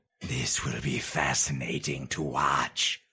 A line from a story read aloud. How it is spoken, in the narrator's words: hissed the potentate, a wide grin